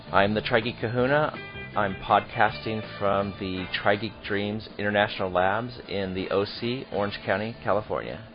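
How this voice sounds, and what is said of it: Quiet, subdued voice. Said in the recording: “my voice is a little bit quiet today because it's 5 freaking a.m. my time.”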